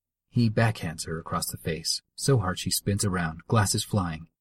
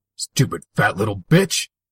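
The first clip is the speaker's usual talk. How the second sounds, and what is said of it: Shaky angry voice. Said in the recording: “in a shaky voice”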